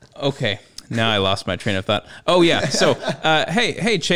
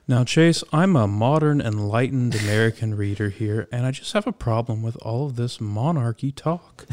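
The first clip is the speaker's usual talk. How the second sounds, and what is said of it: Mock public-radio announcer voice. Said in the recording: “That's my NPR voice.”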